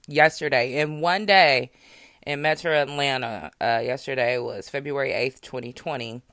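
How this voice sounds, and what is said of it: Hoarse, fading voice. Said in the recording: “Excuse how I sound. I think I'm losing my voice.”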